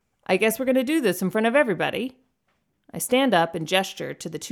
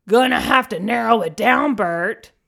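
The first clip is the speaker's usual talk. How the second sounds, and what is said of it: Gravelly, booming shouted impersonation. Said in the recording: “I shout back in a gravelly, booming impersonation that I'm getting rather proud of.”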